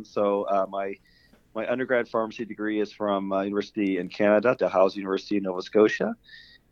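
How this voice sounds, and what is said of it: Canadian accent. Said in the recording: “the listeners will tell from my voice, I have a Canadian accent.”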